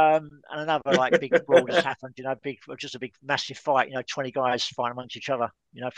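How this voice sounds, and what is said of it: Usual voice. Nothing is said of it.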